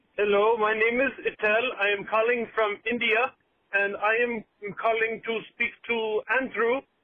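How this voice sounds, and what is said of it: Put-on Indian accent. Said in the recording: “I don't think he was actually from India. ... That was a pretty good accent to, at the start there.”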